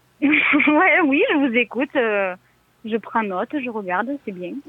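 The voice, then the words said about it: Southwestern French accent. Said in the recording (French): “Il vient d'où cet accent, Cataluna? ... Ah, près de Toulouse. ... le Pays Basque, le sud-ouest de la France ... d'où l'accent en fait.”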